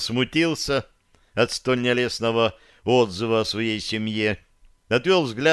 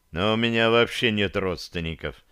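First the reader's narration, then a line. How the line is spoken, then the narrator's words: Heavy-sighing admission. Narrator (Russian): тяжело вздохнув, признался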